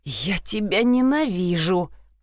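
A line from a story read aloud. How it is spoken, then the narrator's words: Groaning. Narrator (Russian): простонал Винсент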